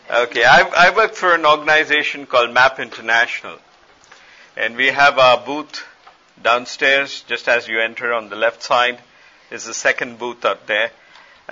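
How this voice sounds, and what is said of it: Speaks with a noticeable accent. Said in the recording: “Are you okay with my accent? It's the only one I have.”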